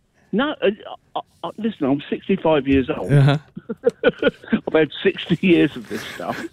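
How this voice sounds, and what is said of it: English accent. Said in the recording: “is that a wee accent that I detect there? ... I'm English.”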